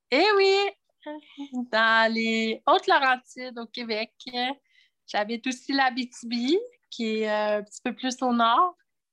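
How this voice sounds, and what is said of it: Québécois French accent. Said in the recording (French): “Tu as un accent. du Québec peut-être”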